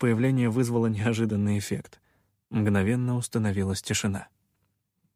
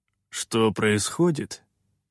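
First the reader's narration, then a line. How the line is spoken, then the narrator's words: Gloomy. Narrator (Russian): мрачно отозвался Рудокоп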